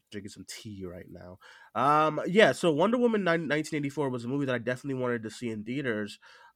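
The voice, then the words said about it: Stuffy, congested voice. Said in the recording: “if I sound stuffy, I'm sorry. I'm fighting a cold.”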